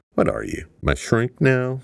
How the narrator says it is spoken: Sarina asked sarcastically

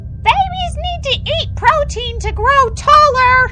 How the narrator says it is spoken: she shouted from outside the door

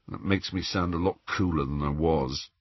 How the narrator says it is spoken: Ron mumbled

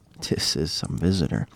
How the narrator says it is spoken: muttered

